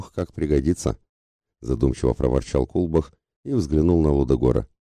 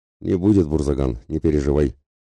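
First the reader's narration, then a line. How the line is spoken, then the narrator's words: Contemptuous snort, ruler. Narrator (Russian): презрительно хмыкнул правитель Варграда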